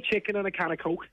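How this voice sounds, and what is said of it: Put-on Scouse accent. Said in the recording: “It's like the elocution lessons. It's like, right, we're going to do Scouser.”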